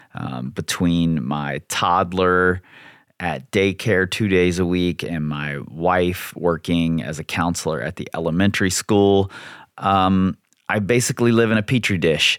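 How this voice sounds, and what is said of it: Hoarse, failing voice from illness. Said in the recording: “you can probably hear that my voice is going because this whole house is sick again”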